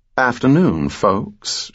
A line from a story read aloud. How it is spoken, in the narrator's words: she said in a melodic Georgia drawl